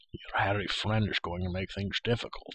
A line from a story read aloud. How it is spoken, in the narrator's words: said quietly